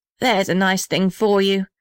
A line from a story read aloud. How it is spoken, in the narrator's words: said the little red house bitterly